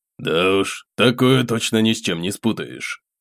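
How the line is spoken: Snort, changed voice. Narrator (Russian): хмыкнул совершенно другим голосом водитель

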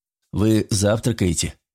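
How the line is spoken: Plain question. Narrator (Russian): зачем-то спросил Ральф

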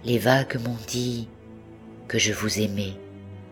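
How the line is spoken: Murmured. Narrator (French): murmura-t-il

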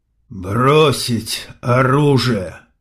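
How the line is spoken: Hoarse but clear. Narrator (Russian): хрипло, но внятно выговаривает Бас

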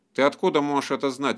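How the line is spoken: Bark. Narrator (Russian): рявкнул Хальфдан

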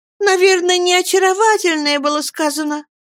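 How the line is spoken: Laughing. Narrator (Russian): проговорила она, смеясь

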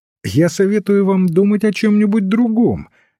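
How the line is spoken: Cheerful priest. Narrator (Russian): весело отвечал священник

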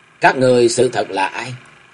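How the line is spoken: Cold question. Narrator (Vietnamese): Cơ Chân Chân lạnh lùng hỏi liền

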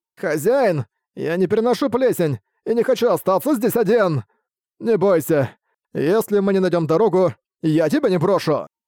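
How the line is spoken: Soothing. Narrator (Russian): Успокоил его Буксил

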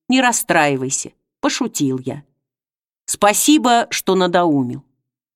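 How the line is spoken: Affectionate. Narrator (Russian): сказал ласково

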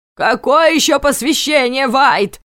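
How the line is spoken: Shouted. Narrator (Russian): закричал начальник

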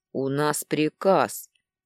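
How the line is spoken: Mechanical bass warrior voice. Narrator (Russian): Словно заведенный пробасил воин

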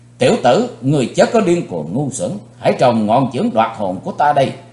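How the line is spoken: Arrogant loud shout. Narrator (Vietnamese): Tên cao thủ, kêu ngạo quát lớn

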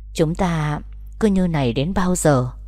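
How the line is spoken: Gentle, hesitant. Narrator (Vietnamese): nhẹ nhàng lên tiếng

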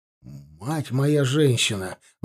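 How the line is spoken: Breathed exclamation. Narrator (Russian): выдохнул Магарамов

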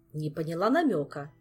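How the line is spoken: Cold. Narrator (Russian): холодно произнесла подруга

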